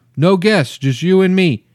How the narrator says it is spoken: yelled

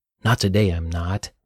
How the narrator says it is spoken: growled Dylan

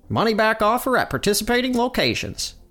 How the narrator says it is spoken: a man with a country accent says

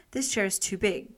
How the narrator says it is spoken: she exclaimed

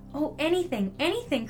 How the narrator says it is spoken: cried the little soul

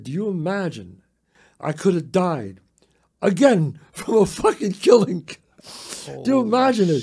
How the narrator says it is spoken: we were laughing, and I said

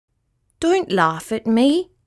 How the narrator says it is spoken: said poor Rat

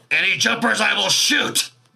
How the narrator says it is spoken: Merrick will shout out

